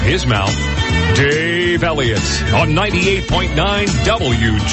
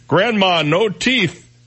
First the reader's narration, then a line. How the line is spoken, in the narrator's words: she shouted